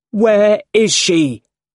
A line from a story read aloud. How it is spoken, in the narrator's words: Peter cried